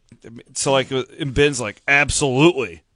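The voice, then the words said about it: Imitates another person's voice. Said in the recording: “pretty good Ben Bruns impression”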